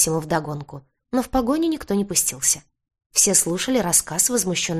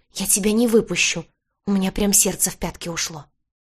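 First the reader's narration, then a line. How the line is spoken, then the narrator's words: Hissed. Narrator (Russian): И прошипел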